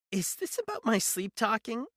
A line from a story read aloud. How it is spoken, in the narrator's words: She laughed, a hollow, lifeless sound